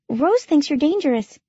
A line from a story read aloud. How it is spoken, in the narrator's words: she blurted out nervously